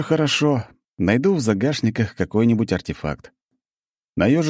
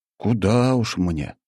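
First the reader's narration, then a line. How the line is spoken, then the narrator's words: Sigh. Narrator (Russian): вздохнул я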